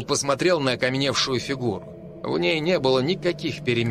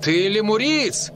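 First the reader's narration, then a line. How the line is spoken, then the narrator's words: Shout. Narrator (Russian): крикнул Дэйв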